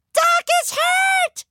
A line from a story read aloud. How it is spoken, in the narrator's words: She shouted